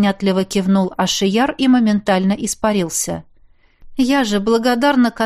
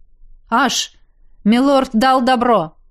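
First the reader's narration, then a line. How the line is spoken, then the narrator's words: Shouted from a distance. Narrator (Russian): крикнул от ворот вернувшийся Надир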